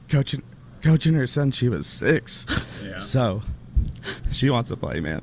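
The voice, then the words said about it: Emotional, choked-up voice. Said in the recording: “getting a little emotional.”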